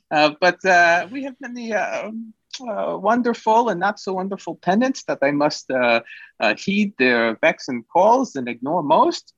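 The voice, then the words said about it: Put-on accent, drifting and poorly held. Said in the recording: “I'm now transitioning the accent. It's terrible.”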